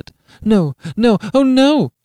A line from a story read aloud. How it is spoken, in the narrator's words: she cried